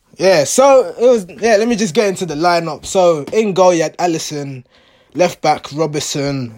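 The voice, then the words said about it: Hoarse voice. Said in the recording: “my voice is hoarse. I'm a bit from the celebrating”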